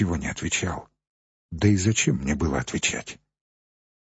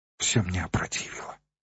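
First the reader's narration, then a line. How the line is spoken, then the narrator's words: Whispered. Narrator (Russian): прошептала она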